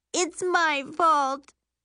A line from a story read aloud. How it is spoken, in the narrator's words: she wails, tears spilling